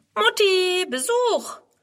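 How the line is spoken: Cheerful call. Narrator (German): Friedrun ruft fröhlich

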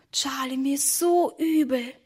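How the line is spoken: Whispering. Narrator (German): flüsterte Emma

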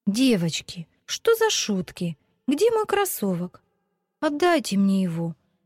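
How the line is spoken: Tearful exclamation. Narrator (Russian): со слезами на глазах воскликнула Вика

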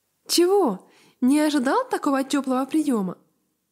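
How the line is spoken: Cheerful question. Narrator (Russian): весело спросил

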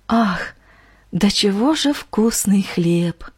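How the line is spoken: Sorrowful sigh. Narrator (Russian): Горестно вздохнула сердобольная женщина

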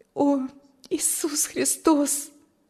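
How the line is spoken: Sighing. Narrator (Russian): вздохнула Маргита

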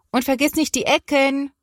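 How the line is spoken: Mother calling from kitchen. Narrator (German): ruft Mama aus der Küche

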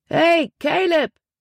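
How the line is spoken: Calling out. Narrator (German): rief

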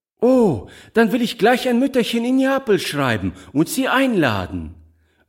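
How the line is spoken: Cheerful exclamation. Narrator (German): rief Giulietta fröhlich

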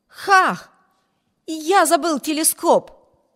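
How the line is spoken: Exclaiming. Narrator (Russian): воскликнул Виберт

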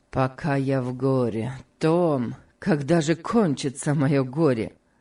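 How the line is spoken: Sad. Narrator (Russian): сказал Сенклер, грустно

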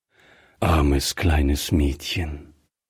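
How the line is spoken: Gentle. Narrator (German): sagte Griffier sanft

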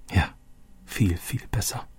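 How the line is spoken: Said softly. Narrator (German): sagte Roberto leise

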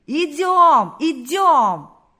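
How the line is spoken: Crowd shouting. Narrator (Russian): Закричали все

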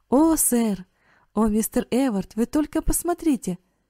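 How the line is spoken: Exclaiming. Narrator (Russian): воскликнул Карл

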